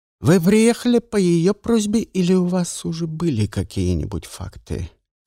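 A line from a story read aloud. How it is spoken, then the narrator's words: Plain. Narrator (Russian): спросил Лагодинш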